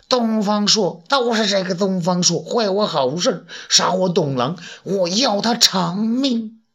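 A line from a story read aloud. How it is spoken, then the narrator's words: Through gritted teeth. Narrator (Chinese): 他咬牙切齿地说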